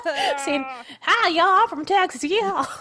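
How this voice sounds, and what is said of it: Texan Southern accent. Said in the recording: “small town Texas ... I got called ... my freshman year of high school because of my accent.”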